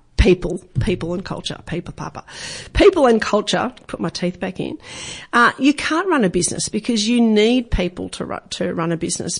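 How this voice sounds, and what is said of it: Scratchy, rough voice. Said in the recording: “my voice is a little bit scratchy today. Having a bit of trouble with my words”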